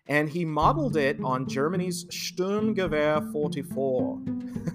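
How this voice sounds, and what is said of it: Put-on German accent. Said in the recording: “Do you like my German accent?”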